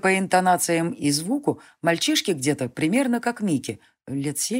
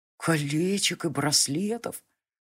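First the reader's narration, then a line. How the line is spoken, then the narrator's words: Almost tender boyish voice. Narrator (Russian): Почти ласково сказал мальчишеский голос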